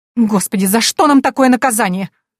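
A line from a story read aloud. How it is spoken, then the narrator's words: Shrill exclamation. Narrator (Russian): визгливо воскликнула женщина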